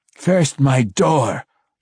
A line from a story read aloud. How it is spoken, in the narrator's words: the faceless one growled at him